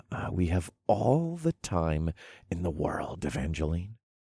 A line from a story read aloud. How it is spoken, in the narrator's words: whispered softly